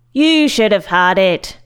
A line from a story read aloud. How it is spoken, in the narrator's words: Monk shouted